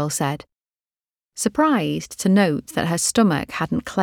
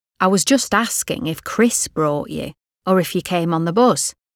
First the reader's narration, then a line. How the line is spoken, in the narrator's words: said Bob